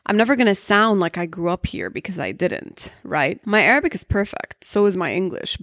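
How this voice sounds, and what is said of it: American accent. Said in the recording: “ended up with an American accent”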